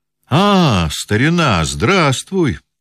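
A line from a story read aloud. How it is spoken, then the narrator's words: Exclamation. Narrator (Russian): воскликнул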